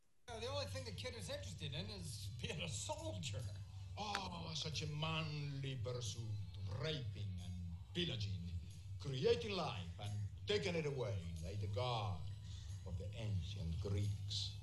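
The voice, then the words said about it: Heavy accent, hard to understand. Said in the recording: “that heavy accent”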